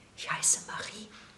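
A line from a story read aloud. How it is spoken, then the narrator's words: Whispering. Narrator (German): flüsterte sie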